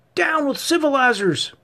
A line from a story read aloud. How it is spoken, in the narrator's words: shouted a second voice